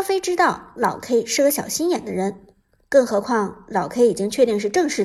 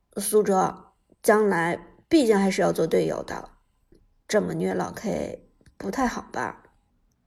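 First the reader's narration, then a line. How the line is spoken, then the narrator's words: Cough, low voice. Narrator (Chinese): 阿飞咳嗽一声，低声说道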